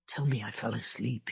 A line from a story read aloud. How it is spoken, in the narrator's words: he whispered hoarsely